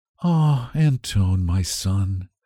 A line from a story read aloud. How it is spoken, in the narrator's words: his mother would answer with a sigh